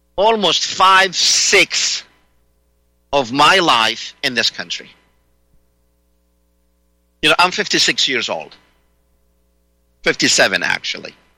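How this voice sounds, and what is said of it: Speaks with a noticeable accent. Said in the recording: “I speak with an accent. I can't get rid of that. ... I love my accent”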